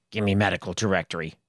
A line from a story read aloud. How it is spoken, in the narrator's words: he muttered